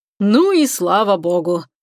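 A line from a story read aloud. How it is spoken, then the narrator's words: Grumbled. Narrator (Russian): проворчал Чебуран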